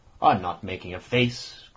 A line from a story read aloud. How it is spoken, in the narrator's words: growled the annoyed Ossipon bearishly